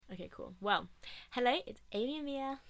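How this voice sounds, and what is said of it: Unusually high-pitched voice. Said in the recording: “That was a really high voice.”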